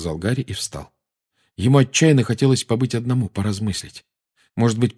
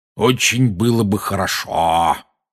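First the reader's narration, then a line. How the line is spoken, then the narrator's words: Spiteful tone. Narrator (Russian): произнес дядя зловредным тоном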